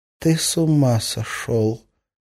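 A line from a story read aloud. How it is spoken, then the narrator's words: Whispering. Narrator (Russian): прошептала Арина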